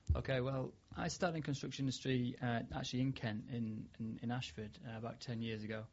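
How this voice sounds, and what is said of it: Slight Yorkshire accent. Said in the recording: “I detect a bit of Yorkshire twang in there. ... A little bit of Yorkshire twang.”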